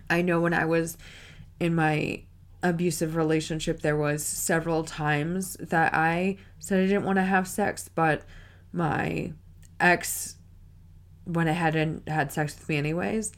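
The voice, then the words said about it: Cracking voice, recovering from illness. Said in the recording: “my voice is cracking up. I was sick, so my voice hasn't fully recovered yet.”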